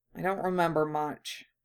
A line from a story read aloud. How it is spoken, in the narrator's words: Harry murmured